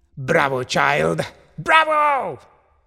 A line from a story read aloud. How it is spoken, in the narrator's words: shouted her uncle